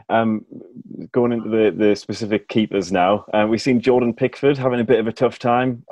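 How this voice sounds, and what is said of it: Regional English accent. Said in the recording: “a hometown hero of mine, as you can tell, probably from the accent”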